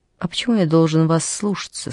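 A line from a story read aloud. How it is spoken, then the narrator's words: Gentle smiling speech. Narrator (Russian): сказал он, мягко улыбнувшись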